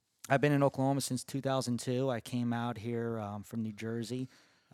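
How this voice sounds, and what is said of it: New Jersey accent. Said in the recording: “I'm originally from New Jersey. I don't know if you could tell from the accent in my voice. ... Got a little bit. ... the most New Jersey guest we've ever had.”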